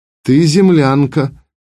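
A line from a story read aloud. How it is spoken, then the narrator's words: Flat, unstressed voice. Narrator (Russian): отозвалась вторая Зарима тем же ровным голосом, не соблюдая ударений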